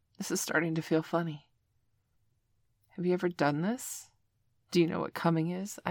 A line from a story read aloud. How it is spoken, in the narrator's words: I asked him